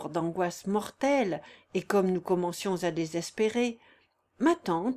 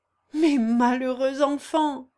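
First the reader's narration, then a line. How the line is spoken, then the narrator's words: Exclaiming. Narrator (French): s'écria-t-elle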